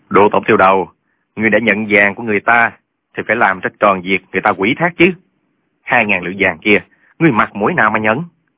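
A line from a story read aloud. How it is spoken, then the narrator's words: Cold scoffing laugh. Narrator (Vietnamese): Trương Thúy Sơn cười nhạt mấy tiếng nói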